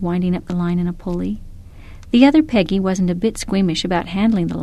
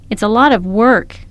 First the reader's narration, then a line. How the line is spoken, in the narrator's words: I shouted